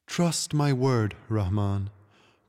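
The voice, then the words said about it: Low sighing voice. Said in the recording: “the Tiger King sighed in a low voice.”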